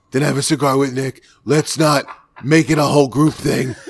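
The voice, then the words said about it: Imitates another person's voice. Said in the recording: “his impersonation of Mike Beltran, which was pretty solid”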